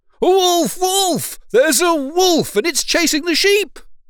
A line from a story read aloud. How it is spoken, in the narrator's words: Peter, feeling bored, cried out again